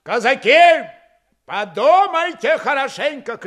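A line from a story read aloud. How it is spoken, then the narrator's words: Shouted to crowd. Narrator (Russian): крикнул он, обращаясь к медленно расходившейся толпе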